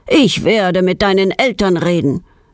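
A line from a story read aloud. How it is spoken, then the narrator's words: Angry scolding after someone. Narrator (German): schimpft ihr Herr Stumpe wütend nach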